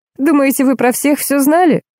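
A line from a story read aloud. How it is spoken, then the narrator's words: Exclaiming. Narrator (Russian): воскликнула она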